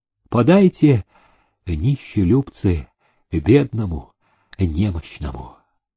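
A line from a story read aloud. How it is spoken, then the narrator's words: Quiet beggar's plea. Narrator (Russian): Тихо молвил он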